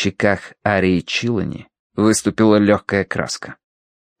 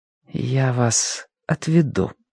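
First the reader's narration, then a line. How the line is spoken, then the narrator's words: Quiet. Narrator (Russian): сказала она тихо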